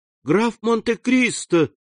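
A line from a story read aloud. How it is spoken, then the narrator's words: Joyful exclamation. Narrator (Russian): воскликнула она с искренней радостью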